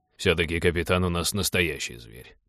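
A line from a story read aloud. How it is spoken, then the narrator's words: Grumbling. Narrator (Russian): проворчал Теодор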